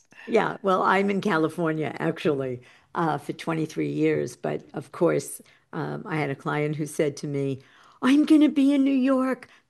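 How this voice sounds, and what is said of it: New York accent. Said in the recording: “hear your New York accent”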